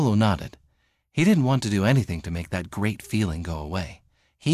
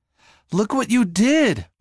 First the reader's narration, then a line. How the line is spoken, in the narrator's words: Paolo yelled